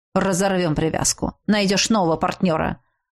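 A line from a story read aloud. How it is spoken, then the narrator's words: Cold young man. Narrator (Russian): Холодно ответил парень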